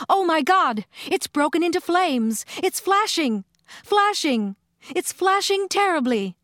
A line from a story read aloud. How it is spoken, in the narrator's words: the commentator screaming